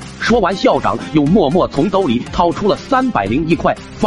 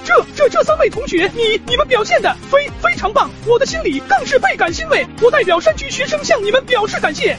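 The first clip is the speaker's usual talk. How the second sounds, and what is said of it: Trembling, stammering voice. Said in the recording (Chinese): “用颤抖的声音说道”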